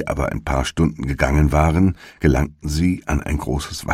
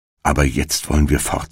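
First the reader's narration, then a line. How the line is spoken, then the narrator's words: Plain. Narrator (German): sagte Hänsel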